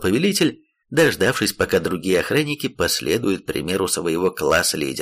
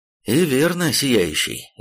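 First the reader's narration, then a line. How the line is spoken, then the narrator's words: Muffled, hollow voice. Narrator (Russian): глухо проговорил Ланселот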